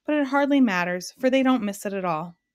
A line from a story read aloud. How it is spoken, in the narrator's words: Alec remarked sadly